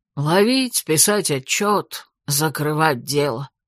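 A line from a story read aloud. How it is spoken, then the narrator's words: Stern, frowning. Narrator (Russian): нахмурился Фрис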